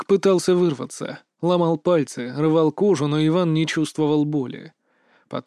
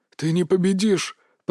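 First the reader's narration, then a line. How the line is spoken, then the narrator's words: Hoarse rasp. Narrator (Russian): прохрипел Марк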